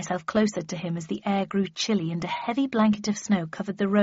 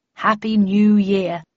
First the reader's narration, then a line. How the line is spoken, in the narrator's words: said my father